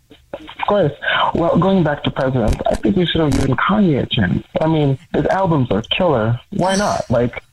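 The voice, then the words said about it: Nice, soothing voice. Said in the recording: “You got a really nice, soothing voice ... your voice is so soothing ... you've got a beautiful voice”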